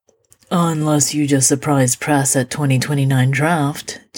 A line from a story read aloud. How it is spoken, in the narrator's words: Gina says dryly